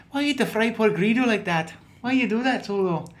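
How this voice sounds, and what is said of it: Put-on Scottish accent. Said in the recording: “kind of got a Scottish accent”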